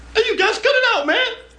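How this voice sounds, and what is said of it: Scared high-pitched voice. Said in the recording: “being scared in the high voice”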